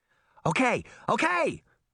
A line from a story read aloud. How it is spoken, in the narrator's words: Daphne cried